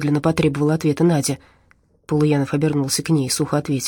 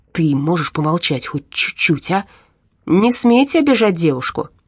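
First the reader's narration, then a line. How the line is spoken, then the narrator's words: Sudden, stern. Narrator (Russian): Вдруг строго сказал водитель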